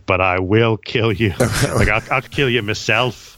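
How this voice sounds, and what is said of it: Put-on Irish-Aussie accent. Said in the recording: “was an Irish accent, by the way. I don't know how it came out like that. ... Aussie Irish”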